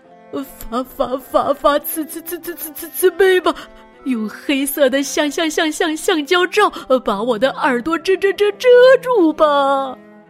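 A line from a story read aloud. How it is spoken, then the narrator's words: Desperate stuttering plea. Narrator (Chinese): 夏夏狼……结结巴巴的说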